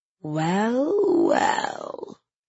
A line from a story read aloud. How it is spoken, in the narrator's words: she drawls